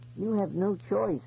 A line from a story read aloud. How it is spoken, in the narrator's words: Eloise said sadly